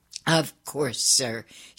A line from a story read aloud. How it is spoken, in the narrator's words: she said